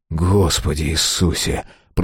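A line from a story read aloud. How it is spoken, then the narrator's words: Muttered. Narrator (Russian): пробормотал Мэлори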